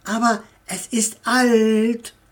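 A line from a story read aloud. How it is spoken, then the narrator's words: Excited, apologetic, defensive. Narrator (German): sagte Tommy mit aufregender Stimme, als wäre es eine Entschuldigung und zugleich ein Schutz für das Haus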